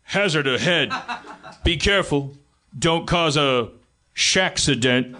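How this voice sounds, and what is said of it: Imitates a big guy's voice. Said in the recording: “Shaquille O'Neal Waze voice ... I don't know if I can do an impression of him. He's like a big guy.”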